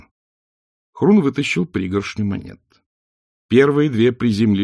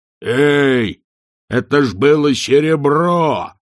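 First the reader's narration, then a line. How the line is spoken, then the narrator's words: Yell. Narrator (Russian): завопил Хрун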